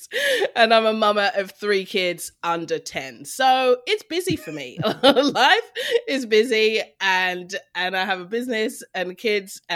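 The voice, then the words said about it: Mixed London and Australian accent. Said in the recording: “it does fluctuate between the two ... little bit of London, a little bit of Australia ... I can hear an Australian accent in there somewhere”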